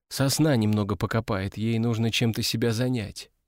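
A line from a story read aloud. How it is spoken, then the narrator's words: Quietly. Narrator (Russian): негромко сказала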